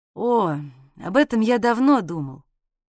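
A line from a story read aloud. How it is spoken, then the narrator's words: Speaking after deep sigh. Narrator (Russian): глубоко вздохнув, проговорил Ваня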